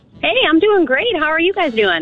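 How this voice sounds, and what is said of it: Cheerful, happy-sounding voice. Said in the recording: “she sounds so happy.”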